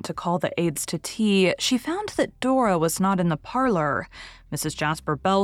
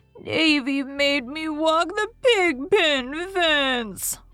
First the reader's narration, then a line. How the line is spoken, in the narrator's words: wailed Dora